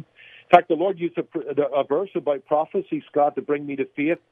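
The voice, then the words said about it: Somewhat diluted Northern Irish accent. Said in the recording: “accent that hasn't been so diluted by living here since 1994 ... grew up in Belfast in Northern Ireland”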